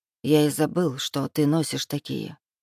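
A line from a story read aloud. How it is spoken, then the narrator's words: Muttered. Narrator (Russian): пробормотал демон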